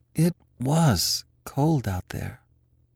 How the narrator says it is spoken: he sighed

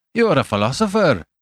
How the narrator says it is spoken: he cried

